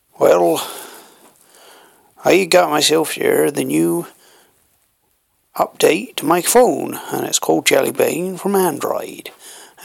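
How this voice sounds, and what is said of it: Put-on country accent. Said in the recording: “reviews of technology never sounds good if it's done in a country accent.”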